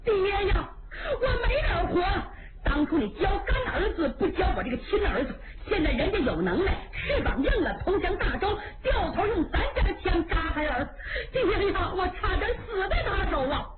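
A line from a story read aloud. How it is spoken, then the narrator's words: Ashamed loud wailing. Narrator (Chinese): 臊得满面通红，放声大哭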